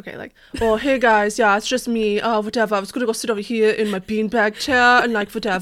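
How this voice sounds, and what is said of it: Lazy slacker character voice. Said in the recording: “That was very John Junior. ... he's a slacker”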